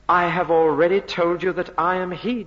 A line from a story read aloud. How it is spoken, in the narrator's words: Jesus said